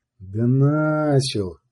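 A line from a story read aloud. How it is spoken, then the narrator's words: Quiet. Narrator (Russian): сказала Яна тихо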